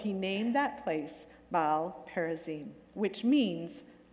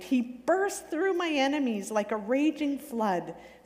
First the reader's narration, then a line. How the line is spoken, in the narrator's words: David exclaimed